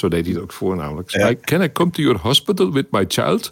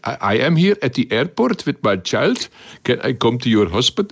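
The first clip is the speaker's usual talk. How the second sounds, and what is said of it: Funny Indian or Middle Eastern accent. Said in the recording (Dutch): “met een eh, funny accent ... ergens uit India of Midden-Oosten”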